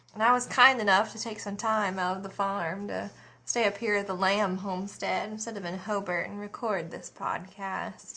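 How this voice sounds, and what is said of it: Rural Australian country accent. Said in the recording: “A good old girl from the country ... obviously I live in country. You can hear by my accent, probably.”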